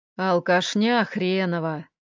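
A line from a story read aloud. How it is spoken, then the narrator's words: Mild mutter. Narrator (Russian): пробормотала она беззлобно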